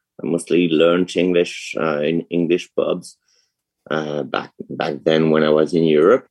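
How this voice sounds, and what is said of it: French accent in English. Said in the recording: “I was born in France, so I want to apologize for my accent.”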